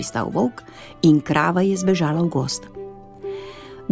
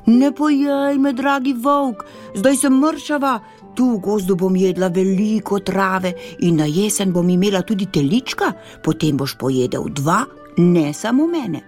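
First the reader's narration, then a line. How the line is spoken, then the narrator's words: Horrified cow. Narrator (Slovenian): Krava se je zgrozila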